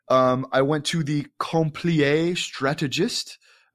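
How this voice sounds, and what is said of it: Poor put-on French accent. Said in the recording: “That's my terrible French accent.”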